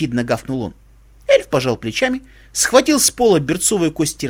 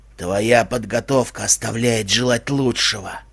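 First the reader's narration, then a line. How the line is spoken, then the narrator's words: Blind man muttering. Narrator (Russian): пробормотал слепец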